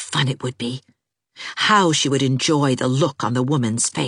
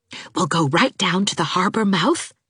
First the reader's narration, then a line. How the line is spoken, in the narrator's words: whispered Anne